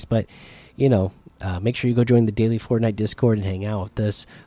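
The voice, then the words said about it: Voice strained, being lost. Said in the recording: “I'm losing my voice.”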